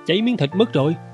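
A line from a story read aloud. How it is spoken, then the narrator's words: Hurried exclamation. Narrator (Vietnamese): Tôi vội kêu lên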